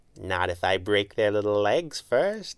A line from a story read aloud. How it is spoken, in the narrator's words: she purred